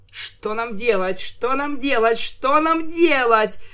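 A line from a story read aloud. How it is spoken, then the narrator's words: Shrieked. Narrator (Russian): завизжала я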